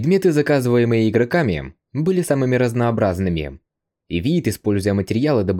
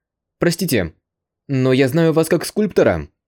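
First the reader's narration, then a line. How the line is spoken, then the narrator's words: Hesitant young man. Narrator (Russian): Неуверенно произнес парень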